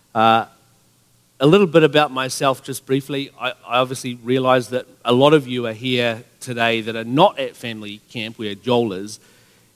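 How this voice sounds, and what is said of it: New Zealand accent. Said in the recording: “You probably noticed my accent. You could even be sitting there wondering if I, in fact, am speaking English... I was born in New Zealand, raised there.”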